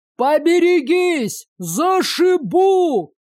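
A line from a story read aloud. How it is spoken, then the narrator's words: Driver yelling. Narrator (Russian): заорал возничий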